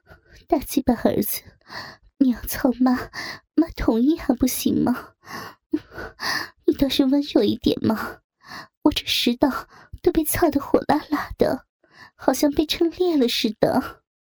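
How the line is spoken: Breathless, coquettish. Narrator (Chinese): 美月娇喘吁吁地说道

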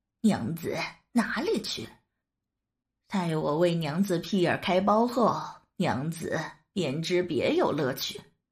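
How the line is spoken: Leering laugh. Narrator (Chinese): 高衙内淫笑道

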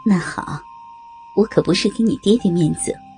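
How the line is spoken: Sighing. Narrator (Chinese): 刀白凤悠悠长叹一声，点点头道

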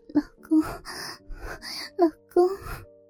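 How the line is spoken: Breathy, coquettish. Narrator (Chinese): 她娇喘着

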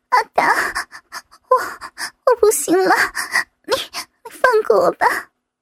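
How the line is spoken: Trembling voice. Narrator (Chinese): 我颤声地对伟达说道

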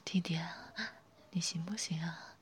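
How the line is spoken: Whispered close. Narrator (Chinese): 凑到耳边轻声说

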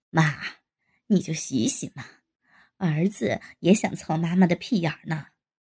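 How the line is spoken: Laughing. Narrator (Chinese): 沈飞也笑道

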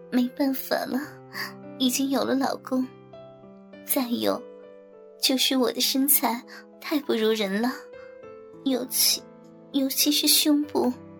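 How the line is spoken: Discontented sigh, half smiling. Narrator (Chinese): 尹山被夸得笑咧了嘴，但却又不满意似的叹着

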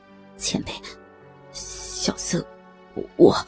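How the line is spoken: Trembling low voice. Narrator (Chinese): 虚竹声音哆嗦地低声道

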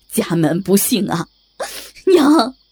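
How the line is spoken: Crying out. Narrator (Chinese): 他哭着喊

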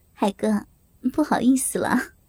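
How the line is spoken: Happy smiling. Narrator (Chinese): 萍姐满脸幸福，满脸的笑容，对海哥说

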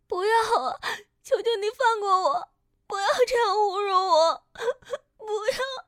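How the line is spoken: Crying, pleading. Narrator (Chinese): 叶子哭喊

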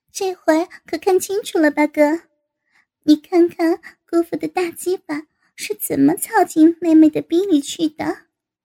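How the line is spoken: Laughing. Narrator (Chinese): 高芳对高原笑道

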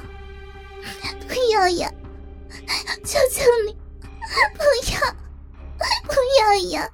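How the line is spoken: Crying scream. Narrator (Chinese): 哭叫声

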